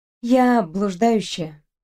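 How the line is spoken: Spoken on exhale. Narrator (Russian): проговорила и выдохнула

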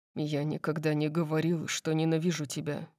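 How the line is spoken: Deep murmur. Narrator (Russian): пробормотал Дариус глубоким голосом

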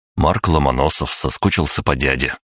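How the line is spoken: Snort. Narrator (Russian): хмыкнул

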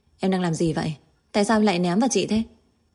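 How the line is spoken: Suppressed anger. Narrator (Vietnamese): Kiều Tư Nguyệt kìm nén cảm xúc của mình, tức giận nói

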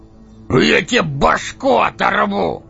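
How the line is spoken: Loud bellow, huge man. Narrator (Russian): гаркнул громадина

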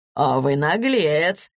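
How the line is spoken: Laughing. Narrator (Russian): засмеялся Мигунов

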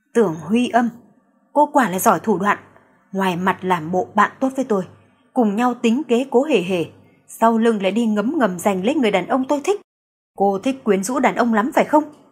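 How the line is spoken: Cold hiss through teeth. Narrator (Vietnamese): Doãn Tuyết Mạt gương mặt lãnh khốc, thanh âm rít ra từ kẽ răng

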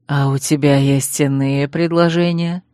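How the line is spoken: Insinuating purr. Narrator (Russian): Мурлыкнул природник вкрадчиво

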